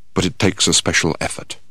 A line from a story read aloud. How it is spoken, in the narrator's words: He then added in a quiet voice